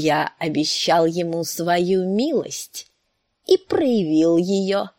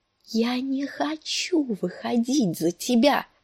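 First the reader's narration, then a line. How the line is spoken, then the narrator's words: Moaning in distress. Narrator (Russian): простонала Санса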